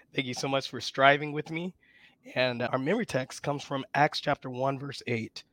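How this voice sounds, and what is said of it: Strained, worn-out voice. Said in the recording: “my voice is a little bit out ... just to save my voice a little bit”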